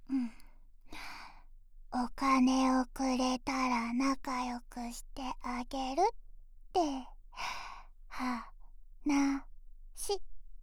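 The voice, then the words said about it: Girl whispering. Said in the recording (Japanese): “女の子にささやかれても”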